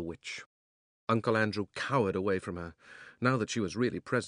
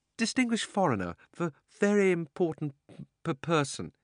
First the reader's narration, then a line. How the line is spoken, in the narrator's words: he stammered